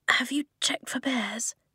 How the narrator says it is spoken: she whispered

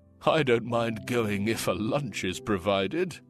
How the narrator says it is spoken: one of the men chuckled

